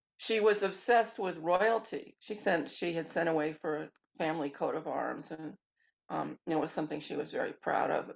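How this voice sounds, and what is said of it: Quavering, shaky voice. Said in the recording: “I have a touch of asthma, so that's why my voice is quavering.”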